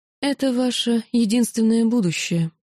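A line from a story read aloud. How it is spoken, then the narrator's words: Completely calm. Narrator (Russian): совершенно спокойно ответила я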